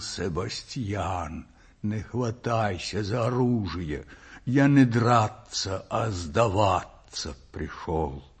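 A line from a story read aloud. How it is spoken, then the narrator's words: Hoarse. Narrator (Russian): Незнакомец хрипло проговорил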